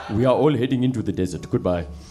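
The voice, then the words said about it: Questionable put-on accent. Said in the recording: “do the questionable accent.”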